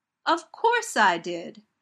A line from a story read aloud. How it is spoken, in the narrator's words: Donna says indignantly